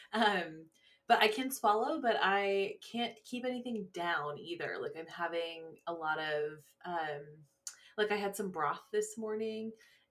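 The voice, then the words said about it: Rough, strained voice. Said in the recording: “my throat is really rough right now, unfortunately, if you can hear it in my voice.”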